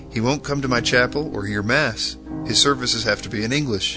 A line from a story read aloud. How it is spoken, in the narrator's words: Bonner exclaimed to Chedsey